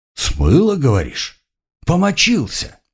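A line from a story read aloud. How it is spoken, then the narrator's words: Angry hiss. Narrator (Russian): зло прошипел Эльфар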